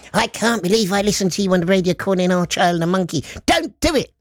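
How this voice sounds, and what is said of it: Imitates another person's voice. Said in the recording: “That's my wife, by the way. That's an impersonation of her.”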